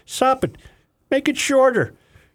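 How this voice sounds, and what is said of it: Bad put-on Irish accent. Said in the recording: “my Irish accent... it's a really bad Irish accent... It's not good”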